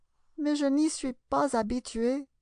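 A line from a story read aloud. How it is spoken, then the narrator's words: Pitiful reply. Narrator (French): répliqua Alice d'un ton piteux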